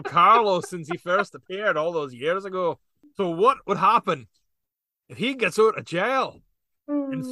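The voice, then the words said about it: Put-on Scottish accent. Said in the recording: “I think my Scottish accent might have broke Will.”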